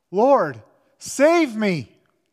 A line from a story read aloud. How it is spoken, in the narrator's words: he became frightened, and beginning to sink, he cried out